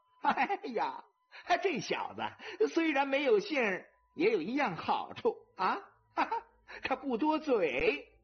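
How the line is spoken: Laughing loudly. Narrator (Chinese): 韩大奶奶大笑着

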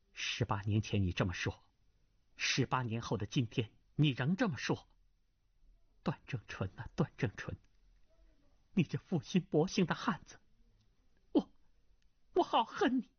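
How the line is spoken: Harsh, stern voice. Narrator (Chinese): 秦红棉厉声道

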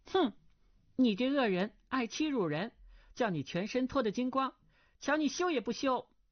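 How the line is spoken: Girl crying out. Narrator (Chinese): 那少女叫道

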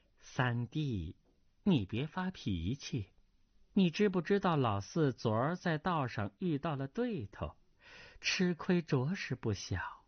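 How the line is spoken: Laughing. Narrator (Chinese): 叶二娘笑道

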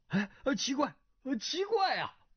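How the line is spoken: Weak, repeated exclamations. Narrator (Chinese): 钱光胜只觉手酸脚软，连叫

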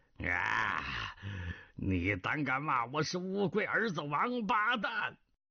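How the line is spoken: Furious roaring shout. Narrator (Chinese): 南海恶神狂吼一声 喝道

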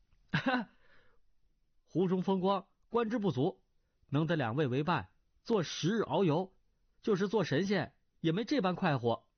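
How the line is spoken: Laughing. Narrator (Chinese): 段誉拍手笑道

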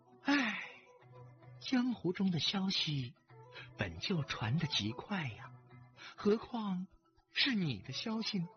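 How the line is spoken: Sighing. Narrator (Chinese): 厉真真又叹了口气

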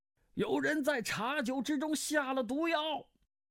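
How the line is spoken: Loud shout. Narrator (Chinese): 十万琛大叫

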